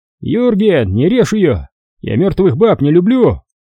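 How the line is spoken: Shout. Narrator (Russian): крикнул кто-то из немцев

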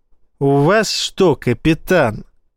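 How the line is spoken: Said through gritted teeth. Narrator (Russian): процедил Эссекс

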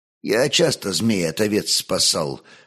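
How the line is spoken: Calm reply, shepherd. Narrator (Russian): спокойно ответил пастух

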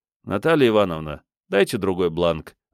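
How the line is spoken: Sighing. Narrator (Russian): вздохнул я

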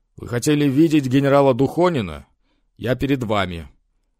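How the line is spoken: Hoarse, excited, fairly loud. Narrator (Russian): Николай Николаевич хриплым от волнения, но достаточно громким голосом объявил

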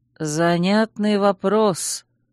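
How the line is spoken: Slow drawl. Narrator (Russian): медленно протянул Чейз

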